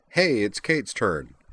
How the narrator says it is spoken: declared cheerfully

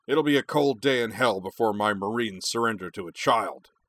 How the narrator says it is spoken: barked

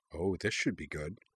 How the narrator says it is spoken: Jing murmured

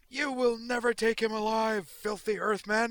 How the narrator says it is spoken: screaming at the top of her lungs

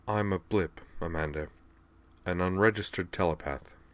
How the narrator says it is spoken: said quietly

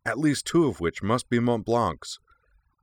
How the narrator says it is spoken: Ritsu added eagerly

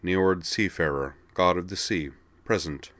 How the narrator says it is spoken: Calmly, with a faint smile, he said

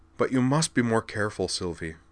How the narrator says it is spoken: he told her, his tone more pleading than lecturing

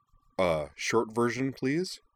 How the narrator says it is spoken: said Wakaba

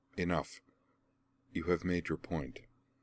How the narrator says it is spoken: she said quietly

